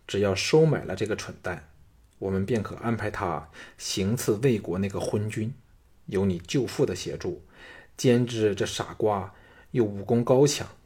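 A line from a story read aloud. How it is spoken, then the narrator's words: Lowered voice. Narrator (Chinese): 平原夫人压低了声音说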